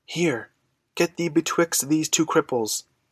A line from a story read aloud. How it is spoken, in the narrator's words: whispered Dan urgently